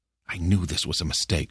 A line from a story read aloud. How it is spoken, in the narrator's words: Purslane whispered